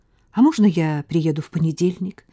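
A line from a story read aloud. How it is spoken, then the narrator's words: Plain. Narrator (Russian): спросил Слава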